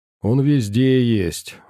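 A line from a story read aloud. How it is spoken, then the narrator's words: Sighing. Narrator (Russian): вздохнул оператор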